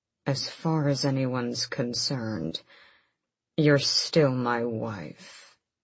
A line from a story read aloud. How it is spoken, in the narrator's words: his voice was a midnight growl as he said